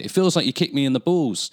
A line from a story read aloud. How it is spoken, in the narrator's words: He rolled over and cried